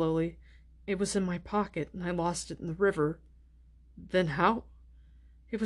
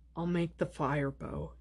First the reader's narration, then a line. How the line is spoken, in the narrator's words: he said wearily